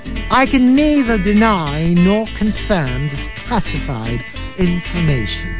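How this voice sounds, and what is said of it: Put-on English accent. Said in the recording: “are we going to do the rest of the show in an English accent?”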